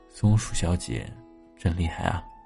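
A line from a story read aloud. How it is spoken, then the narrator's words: Sighing. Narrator (Chinese): 只好叹息的说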